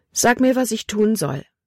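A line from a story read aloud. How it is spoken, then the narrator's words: Plain. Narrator (German): sagte sie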